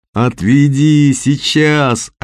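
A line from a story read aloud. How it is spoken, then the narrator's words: Desperate yell. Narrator (Russian): отчаянно заорал Костя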